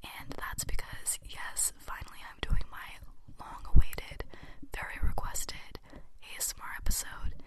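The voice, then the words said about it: Whispering voice. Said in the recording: “I'm whispering rather than talking like I normally do”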